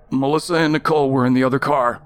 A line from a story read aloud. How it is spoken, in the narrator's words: Chad half yelled